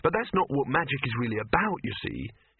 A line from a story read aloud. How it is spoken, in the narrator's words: he added quickly